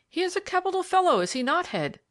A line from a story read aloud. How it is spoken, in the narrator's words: exclaimed